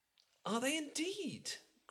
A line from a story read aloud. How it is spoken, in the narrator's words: cried Elizabeth with the greatest satisfaction